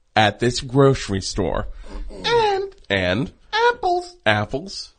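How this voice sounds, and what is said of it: Phony broadcaster-style voice. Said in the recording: “I'm doing a phony baloney voice.”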